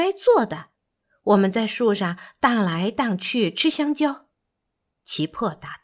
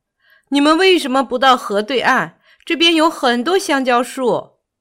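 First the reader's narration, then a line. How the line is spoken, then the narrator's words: Loud. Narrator (Chinese): 他大声说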